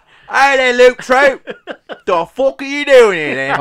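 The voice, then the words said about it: Put-on Cockney accent. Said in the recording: “weird voice ... Do the Cockney.”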